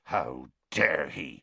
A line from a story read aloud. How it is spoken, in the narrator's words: Hagrid growled